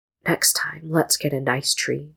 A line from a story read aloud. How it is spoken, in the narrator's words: Jinu whispered